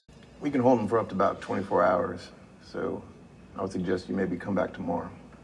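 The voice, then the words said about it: Unconvincing put-on Texas accent. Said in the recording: “That cop's accent is horrible. ... That cop's Texas accent is terrible. ... It could not have been hard to find someone with a decent Texas accent”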